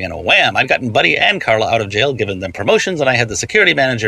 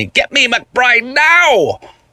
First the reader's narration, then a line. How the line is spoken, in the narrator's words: The person on the phone shouted at me